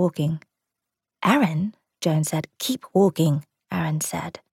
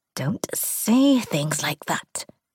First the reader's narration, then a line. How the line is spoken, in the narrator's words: he hissed